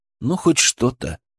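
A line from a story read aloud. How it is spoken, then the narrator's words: Sigh. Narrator (Russian): вздохнул я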